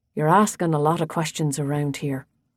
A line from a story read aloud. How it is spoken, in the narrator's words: he said quietly